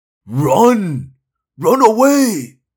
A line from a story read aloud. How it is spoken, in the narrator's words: Doc cried